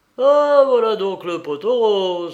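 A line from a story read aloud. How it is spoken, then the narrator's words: Scoundrel's exclamation. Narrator (French): s'écria le gredin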